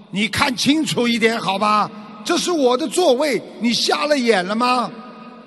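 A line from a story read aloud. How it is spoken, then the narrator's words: Furious man yelling loudly. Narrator (Chinese): 那个男士非常生气，大声地嚎叫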